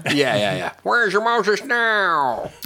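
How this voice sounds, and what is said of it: Poor impression of another person's voice. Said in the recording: “was that an impersonation of Ernest Borgnine? ... Edward G. Robinson ... that was a pretty bad Ernest Borgnine ... I don't think it was a very good Edward G. Robinson either”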